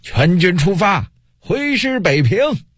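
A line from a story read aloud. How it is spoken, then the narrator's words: Powerful loud shout. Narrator (Chinese): 运丹田之气，大声喊道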